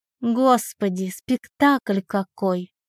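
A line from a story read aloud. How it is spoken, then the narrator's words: Tired and irritated. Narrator (Russian): Устало-раздраженно отвечает Наталья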